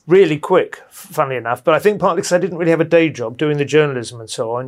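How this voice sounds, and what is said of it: Posh English accent. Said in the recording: “oh, he's posh, isn't he? ... I assume my accent”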